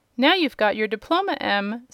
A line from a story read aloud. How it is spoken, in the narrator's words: said Uncle Henry, with a laugh